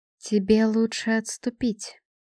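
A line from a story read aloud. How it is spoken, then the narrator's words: Calm. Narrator (Russian): спокойно сказала Эстрид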